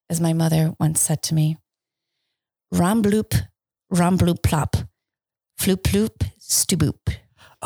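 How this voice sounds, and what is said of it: Mock Vulcan speech as Spock. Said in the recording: “translate that into Vulcan for us ... my perfect accents ... Spock”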